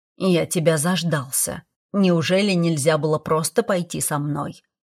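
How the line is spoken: Grumbling. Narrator (Russian): проворчал Седрик

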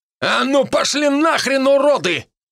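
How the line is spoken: Shouted. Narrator (Russian): выкрикнул

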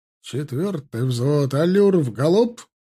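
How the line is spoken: Barked command. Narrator (Russian): рявкнул Тимофей

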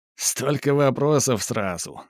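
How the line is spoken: Laughing. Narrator (Russian): засмеялся Саватов

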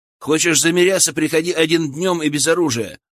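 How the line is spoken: Shout. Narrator (Russian): выкрикнул Илья

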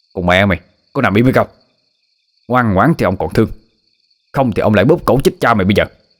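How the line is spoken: Harsh, gritted shout. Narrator (Vietnamese): Hắn ta gằn giọng lên mà quát

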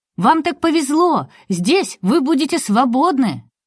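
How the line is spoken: Young lad's joyful shouting. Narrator (Russian): паренек радостно кричал

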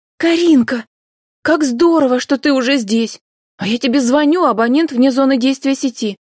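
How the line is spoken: Joyful greeting, young woman. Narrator (Russian): радостно приветствовала подругу девушка

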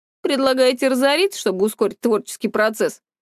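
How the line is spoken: Young man's snort. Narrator (Russian): хмыкнул молодой человек

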